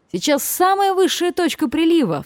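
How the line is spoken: Sudden cry. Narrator (Russian): вскрикнул Кук

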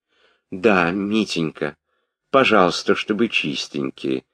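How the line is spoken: Sad, sighing. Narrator (Russian): сказала графиня, грустно вздыхая

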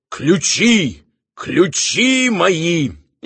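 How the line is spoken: Hoarse wheezing. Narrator (Russian): хрипя

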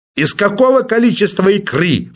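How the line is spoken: Furious shout. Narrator (Russian): вновь взбеленяясь, закричал Персиков

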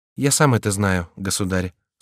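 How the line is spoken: Calm young man. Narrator (Russian): спокойно отвечал молодой человек

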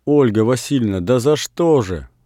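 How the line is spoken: Exclaiming. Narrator (Russian): воскликнул Саша

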